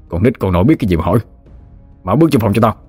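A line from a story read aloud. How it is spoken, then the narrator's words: Loud shout. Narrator (Vietnamese): Hắn quát lớn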